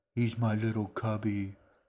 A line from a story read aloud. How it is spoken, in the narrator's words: the queen said in a baby voice